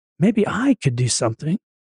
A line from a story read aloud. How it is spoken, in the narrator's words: It often whispers